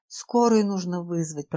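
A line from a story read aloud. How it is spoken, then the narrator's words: Muttered. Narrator (Russian): пробормотала Надежда Николаевна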